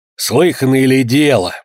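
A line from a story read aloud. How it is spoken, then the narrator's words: Grumbling. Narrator (Russian): продолжала ворчать Вероника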